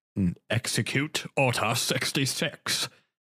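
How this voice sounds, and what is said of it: Impression of Palpatine's voice. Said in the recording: “That was a really good impression, actually, ... for Palpatine. ... Yeah, that was really good.”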